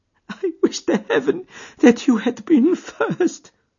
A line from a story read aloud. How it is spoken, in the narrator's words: she sobbed